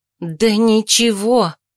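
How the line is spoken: Breathy exclamation. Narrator (Russian): выдохнула я

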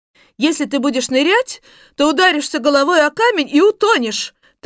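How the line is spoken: Woman's triumphant shout. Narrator (Russian): торжествующе закричала женщина, так, будто она и не мечтала о другом исходе событий

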